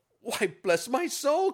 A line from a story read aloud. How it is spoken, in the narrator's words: cried Fred